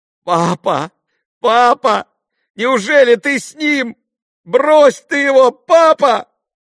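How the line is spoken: Boy's sudden shout. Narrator (Russian): крикнул вдруг мальчик

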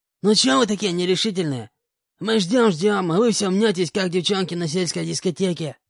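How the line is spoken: Hoarse man's voice. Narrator (Russian): хриплым голосом обратился к нам один из мужчин

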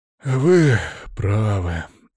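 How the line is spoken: Quieter, heavy exhale, baron. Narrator (Russian): Уже тише ответил барон и шумно выдохнул

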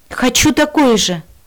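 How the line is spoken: Quick exclamation. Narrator (Russian): Тут же воскликнула я

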